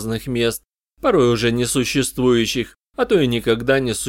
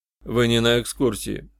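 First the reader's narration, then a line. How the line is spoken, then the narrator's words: Dry remark. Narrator (Russian): сухо заметил я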